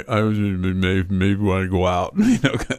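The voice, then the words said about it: Sylvester Stallone impression. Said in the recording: “that's a great Sylvester Stallone impression.”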